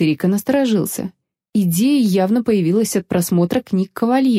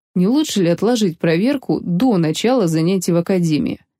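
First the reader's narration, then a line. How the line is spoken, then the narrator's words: Plain question. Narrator (Russian): спросил он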